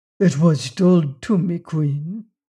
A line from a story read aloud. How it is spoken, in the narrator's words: answered in a low, full voice